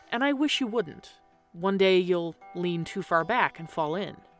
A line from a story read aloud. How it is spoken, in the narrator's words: said the man slowly